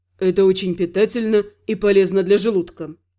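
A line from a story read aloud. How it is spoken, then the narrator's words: Calm reply. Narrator (Russian): спокойно ответил Изгал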